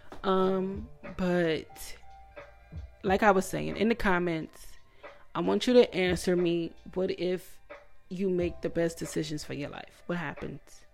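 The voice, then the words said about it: Emotional, choked-up voice. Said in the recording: “I'm getting emotional. That's why I sound like this.”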